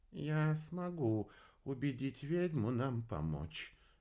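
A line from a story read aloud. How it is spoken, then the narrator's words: Soft. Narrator (Russian): мягко произнес Галилей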